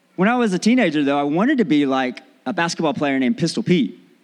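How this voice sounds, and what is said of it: Mixed accent, partly Australian, rising inflection. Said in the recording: “there's an inflection in your voice that when you start to speak, your sentences rise up ... I'm slowly getting some of the Australian accents because people think I'm Irish ... all kinds of mix of accents ... I've got a schizophrenic accent”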